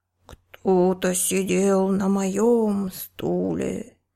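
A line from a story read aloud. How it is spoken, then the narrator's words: Growled, papa bear. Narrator (Russian): зарычал папа-медведь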